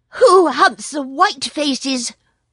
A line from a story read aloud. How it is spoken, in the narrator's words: yapped the jackal excitedly